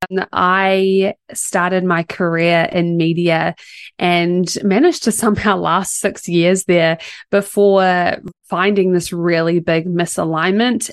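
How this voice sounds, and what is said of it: New Zealand accent. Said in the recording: “I am based in New Zealand. Might be a little bit of a different accent”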